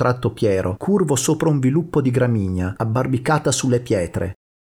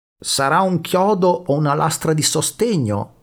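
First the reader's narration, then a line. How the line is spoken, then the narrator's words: Plain. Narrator (Italian): disse Alessandro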